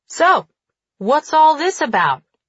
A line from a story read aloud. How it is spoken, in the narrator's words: he says, his voice loud enough to be heard over the noise